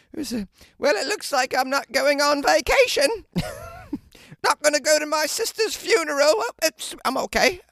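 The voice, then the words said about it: Put-on British accent. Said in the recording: “she probably speaks with a British accent ... using a British accent ... This accent's”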